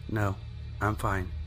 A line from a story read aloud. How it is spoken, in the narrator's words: So timidly I replied